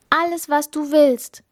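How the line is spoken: Princess calling out. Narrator (German): rief die Prinzessin

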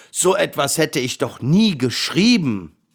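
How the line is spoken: Lion's roar. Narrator (German): brüllte der Löwe

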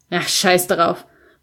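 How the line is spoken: Dismissive grumble. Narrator (German): brummte ich wegwerfend

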